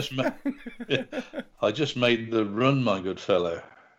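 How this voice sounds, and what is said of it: Imitates another person's voice. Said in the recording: “Is that your Salah impression? ... Yeah, it's pretty good, isn't it?”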